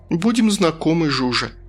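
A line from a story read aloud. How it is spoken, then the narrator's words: Relieved sigh. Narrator (Russian): с облегчением вздохнула я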